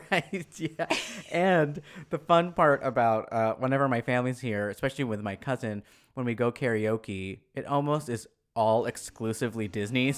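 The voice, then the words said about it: Deeper, raspy voice. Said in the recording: “my voice is a little bit more deeper and raspier than it usually is”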